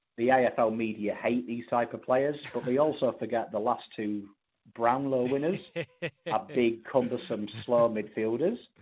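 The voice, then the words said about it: English (Pommy) accent. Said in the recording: “a man with a Pommy accent comes on and starts talking football”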